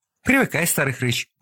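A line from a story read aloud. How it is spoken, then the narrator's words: Joyful. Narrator (Russian): радостно сказала Вероника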